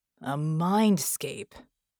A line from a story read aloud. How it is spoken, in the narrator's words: Red snarled